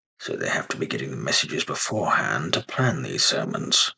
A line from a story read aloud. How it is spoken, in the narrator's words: the mayor murmured